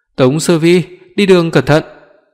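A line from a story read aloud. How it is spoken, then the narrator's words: Shouted from behind. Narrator (Vietnamese): Lương Tranh hét lên sau lưng tôi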